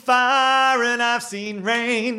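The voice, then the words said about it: Very deep singing voice. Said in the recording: “You have a very deep voice naturally, but that was very deep.”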